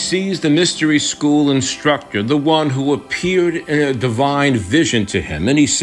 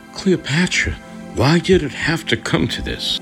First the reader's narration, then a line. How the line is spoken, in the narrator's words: Mark Antony whispering with sorrow